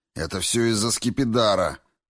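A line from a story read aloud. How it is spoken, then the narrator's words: Growled. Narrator (Russian): прорычал я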